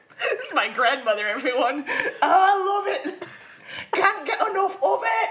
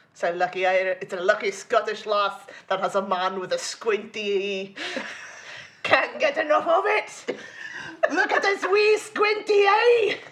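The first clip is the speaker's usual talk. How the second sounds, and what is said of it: Put-on Scottish cartoon character accent. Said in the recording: “that sounds like a great Glomgold accent ... I was doing Glomgold”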